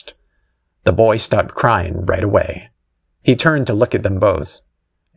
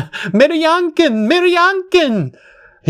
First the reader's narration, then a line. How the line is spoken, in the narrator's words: He screamed it repeatedly as if he were on loop